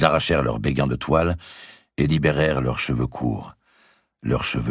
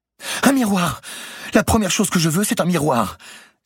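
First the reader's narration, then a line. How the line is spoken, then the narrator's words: Eager exclamation. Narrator (French): s'écria comme si elle allait être libérée sur l'heure et déjà n'avait plus à se soucier que de son apparence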